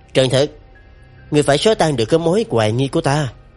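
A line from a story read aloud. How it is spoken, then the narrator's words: Smiling speech. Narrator (Vietnamese): mỉm cười nói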